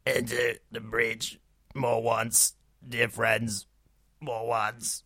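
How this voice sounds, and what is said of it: Impression of an actor in Yoda style. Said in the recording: “perform my latest impression, Nick Nolte, doing that speech from Henry V in the style of Yoda ... That's not bad ... one of your better ones.”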